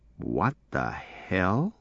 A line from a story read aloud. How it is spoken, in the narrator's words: Charlie said quietly